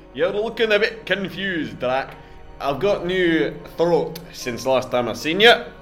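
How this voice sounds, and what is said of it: Monster character with Scottish accent. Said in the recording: “I almost adopted your accent there ... Pretty sure I stole it from a Scotsman.”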